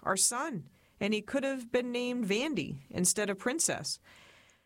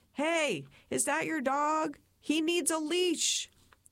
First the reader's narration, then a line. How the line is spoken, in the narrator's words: I just shouted